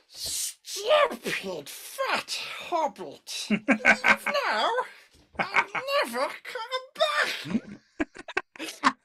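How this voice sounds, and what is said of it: Gollum character voice impression. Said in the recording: “give us your impression of Gollum”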